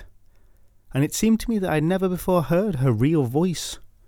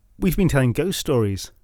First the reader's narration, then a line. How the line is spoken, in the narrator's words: said